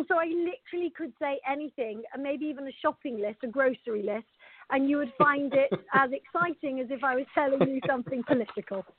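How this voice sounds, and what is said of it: Beautiful foreign accent. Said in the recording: “your accent is so beautiful to me”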